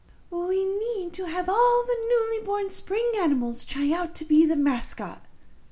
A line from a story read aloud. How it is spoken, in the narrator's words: the Tooth Fairy exclaimed